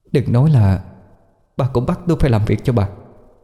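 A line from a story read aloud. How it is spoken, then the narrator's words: Trembling fearful question. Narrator (Vietnamese): Mặt cô tái nhợt run run hỏi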